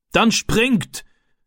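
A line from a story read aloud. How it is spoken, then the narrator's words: Man calling out. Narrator (German): rief der Mann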